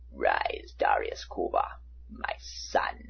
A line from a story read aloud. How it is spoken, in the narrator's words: the Emperor rasped